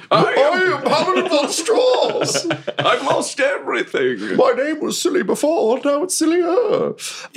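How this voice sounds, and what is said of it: Silly character voice. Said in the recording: “He adopts a silly voice.”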